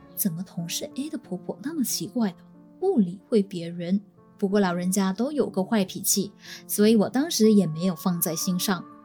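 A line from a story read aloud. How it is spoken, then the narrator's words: Muttered inwardly. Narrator (Chinese): 我就心里嘀咕了一声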